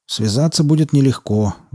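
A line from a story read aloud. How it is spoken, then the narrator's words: Sigh. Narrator (Russian): вздохнул Кайл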